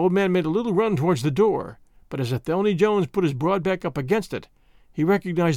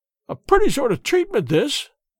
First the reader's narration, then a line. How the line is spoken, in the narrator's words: cried